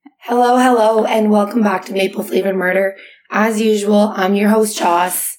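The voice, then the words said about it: Hoarse, nearly lost voice. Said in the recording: “as you can tell, I have lost my voice over the weekend”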